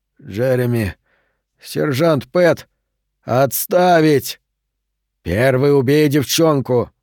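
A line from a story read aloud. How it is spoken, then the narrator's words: Hoarse. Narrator (Russian): Лежащий на земле Тру хрипло сказал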